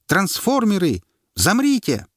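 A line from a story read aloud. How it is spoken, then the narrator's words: Boy shouting. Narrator (Russian): мальчик прокричал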